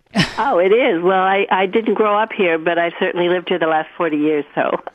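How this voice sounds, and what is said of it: New York accent. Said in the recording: “your voice is total New York”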